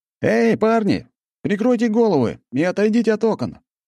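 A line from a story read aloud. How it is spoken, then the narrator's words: Shout. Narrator (Russian): крикнул я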